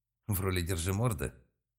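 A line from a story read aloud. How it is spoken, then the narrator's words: Through gritted teeth. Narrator (Russian): процедил Малк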